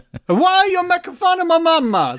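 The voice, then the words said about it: Exaggerated put-on Italian accent. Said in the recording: “Stop doing their accent ... a horribly offensive Italian voice”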